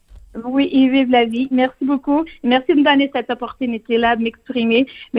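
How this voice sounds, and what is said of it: French spoken with a charming accent. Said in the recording (French): “vous parlez français avec un accent qui est absolument charmant”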